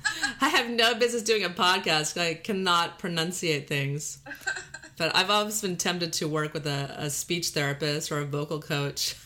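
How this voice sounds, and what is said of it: Texas drawl with valley girl twang. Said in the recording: “we're both from Texas, so I'm grew up in Texas with this drawl that even when I say drawl, I drawl it out ... I have this valley girl accent ... Valley girl with a twang”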